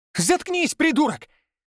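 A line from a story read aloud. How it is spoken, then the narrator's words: Shrill shriek. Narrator (Russian): Взвизгнул в ответ Павел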